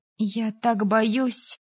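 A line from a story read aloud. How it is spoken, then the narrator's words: Sobbing. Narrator (Russian): Пенни всхлипнула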